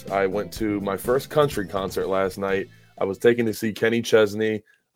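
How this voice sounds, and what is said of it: Slightly hoarse voice. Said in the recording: “My voice, I'm a little hoarse.”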